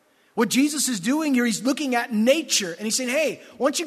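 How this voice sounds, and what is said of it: Usual voice. Nothing is said of it.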